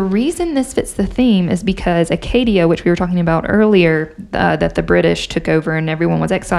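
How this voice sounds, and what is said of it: Usual voice. Nothing is said of it.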